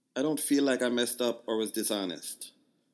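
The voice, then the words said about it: Attempted Jamaican accent. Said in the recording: “I'm going to try to do... I'm sure it's going to be horrible, but I'm going to try to do a Jamaican accent. I don't even think she has a strong Jamaican accent”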